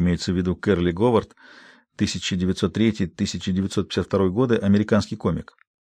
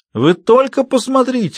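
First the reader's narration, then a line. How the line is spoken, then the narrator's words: Exclamation. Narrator (Russian): воскликнул Мел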